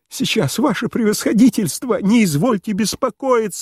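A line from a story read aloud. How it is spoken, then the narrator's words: Energetic cry. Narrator (Russian): энергически вскрикнул Пселдонимов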